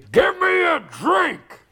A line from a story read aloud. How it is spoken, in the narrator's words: He hollered